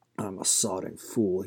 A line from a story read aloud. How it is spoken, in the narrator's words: he muttered